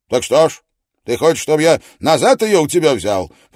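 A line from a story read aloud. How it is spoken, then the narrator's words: Surprised, slightly stern. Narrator (Russian): произнес Араратов более удивленно, чем строго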